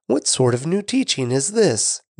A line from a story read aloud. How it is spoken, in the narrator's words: they asked excitedly